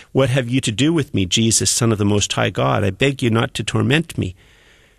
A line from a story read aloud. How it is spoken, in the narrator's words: the man he cried out and said with a loud voice